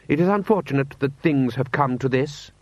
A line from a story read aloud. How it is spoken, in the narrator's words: he said stiffly